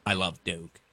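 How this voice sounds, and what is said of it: Imitates another person's voice. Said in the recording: “bad impression. Should not have tried it.”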